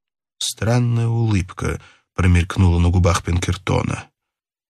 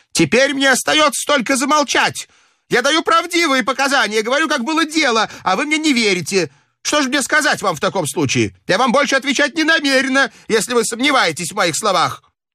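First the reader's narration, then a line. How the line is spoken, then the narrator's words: Furious shout. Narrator (Russian): Мария Вильям в бешенстве закричала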